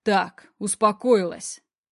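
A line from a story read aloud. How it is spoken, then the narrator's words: Commanding tone. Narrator (Russian): командным тоном приказываю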